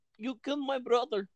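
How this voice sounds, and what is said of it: Put-on German accent. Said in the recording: “That's definitely a German accent.”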